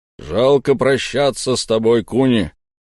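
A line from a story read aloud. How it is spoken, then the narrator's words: Loud, deep bass. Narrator (Russian): громко пробасил Гром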